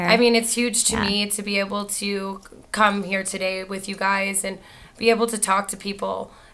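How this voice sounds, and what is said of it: Rough, sick-sounding voice. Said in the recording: “my voice is a little bit scary today... I was definitely told I sound like Joan Rivers... I was sick... common cold chest, common cold head”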